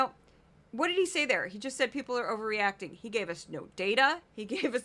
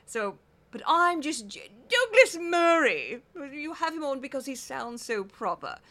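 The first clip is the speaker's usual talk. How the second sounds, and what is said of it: American's poor cut-glass British accent. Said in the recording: “cut glass accent ... You're doing it wrong! And I admit openly that I am doing it wrong ... very difficult for an American to get that accent down ... very hard to do British properly”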